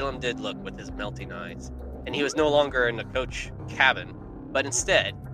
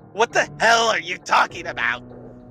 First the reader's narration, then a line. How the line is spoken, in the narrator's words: Balaam yelled, but it sounded more like a shriek of panic than a man yelling